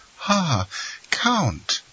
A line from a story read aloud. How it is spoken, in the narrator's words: she exclaimed, with the delight manifested by every member of the family whenever he visited the Rue Malais